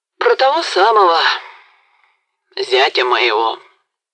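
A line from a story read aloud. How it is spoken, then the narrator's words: Sigh. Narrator (Russian): вздохнул Сыч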